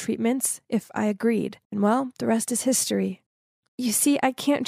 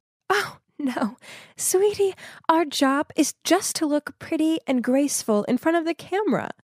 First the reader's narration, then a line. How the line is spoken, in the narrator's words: She just laughed and said